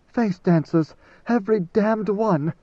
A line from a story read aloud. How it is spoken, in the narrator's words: Idaho panted